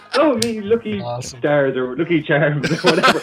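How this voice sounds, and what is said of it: Exaggerated fake leprechaun Irish accent. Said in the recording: “doing like the fake American Irish accent ... the leprechaun thing”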